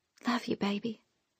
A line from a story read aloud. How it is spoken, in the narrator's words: she whispered